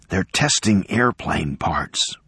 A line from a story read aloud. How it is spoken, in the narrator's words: Kenner whispered